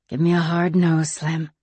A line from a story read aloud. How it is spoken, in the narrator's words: she murmured